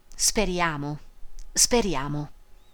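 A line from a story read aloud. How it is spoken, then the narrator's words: Murmuring. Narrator (Italian): mormorando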